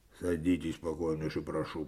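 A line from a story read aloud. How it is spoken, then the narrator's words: Said coldly. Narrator (Russian): проговорил Коваленко холодно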